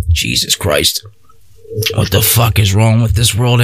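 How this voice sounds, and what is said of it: Usual voice. Nothing is said of it.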